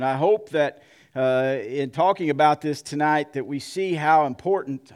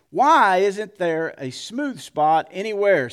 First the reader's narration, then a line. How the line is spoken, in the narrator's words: exclaimed